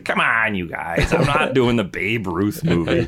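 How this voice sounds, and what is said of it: Robert Zemeckis impression. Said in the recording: “Great Zemeckis impression.”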